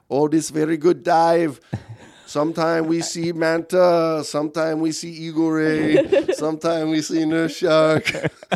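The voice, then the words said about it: Put-on French-Mexican accent. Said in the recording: “What is that accent? ... Because that wasn't Spanish. ... French-Mexican. ... I thought it was an Eskimo.”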